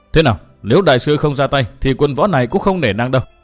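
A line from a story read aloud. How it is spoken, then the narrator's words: Angry shouted demand. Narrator (Vietnamese): tức giận thực sự, quát hỏi tiếp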